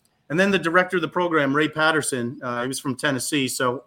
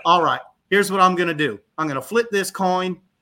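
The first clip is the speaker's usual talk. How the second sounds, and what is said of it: Put-on Southern accent. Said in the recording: “when I do his thing, please pardon my Southern accent.”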